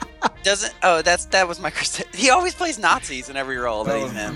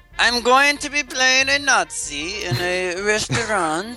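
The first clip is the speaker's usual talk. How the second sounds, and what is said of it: Bad put-on German accent. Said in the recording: “my terrible accent there ... apologize to all our German listeners”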